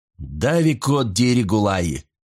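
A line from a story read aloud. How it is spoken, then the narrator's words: Exclamation. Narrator (Russian): воскликнул Парл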